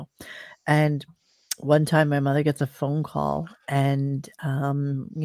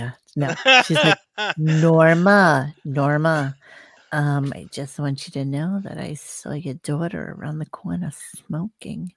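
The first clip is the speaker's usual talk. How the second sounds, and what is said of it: Imitates a neighbor's voice. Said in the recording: “but that is a brilliant impression. I know it's spot on.”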